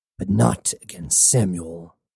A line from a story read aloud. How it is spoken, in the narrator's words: growled Cybele